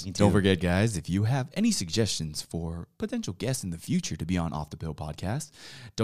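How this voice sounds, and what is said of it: Smooth announcer-style radio voice. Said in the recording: “Let me go into my radio voice. ... Dude, you have a nice voice. ... I like that voice.”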